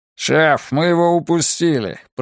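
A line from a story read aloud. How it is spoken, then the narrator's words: Grumbling. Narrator (Russian): пробурчал Монтейн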